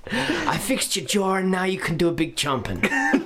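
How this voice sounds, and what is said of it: Breathy put-on European accent. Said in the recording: “so close to Bjork. That impression. ... That's just my breathy European. ... whenever I do a breathy European accent.”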